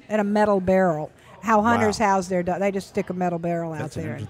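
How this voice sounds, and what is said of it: Regional accent. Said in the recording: “That's where your accent really got me there.”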